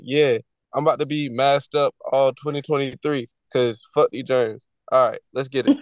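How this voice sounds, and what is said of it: Sick, under-the-weather voice. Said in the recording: “If y'all can hear it in my voice, I'm a bit under the weather.”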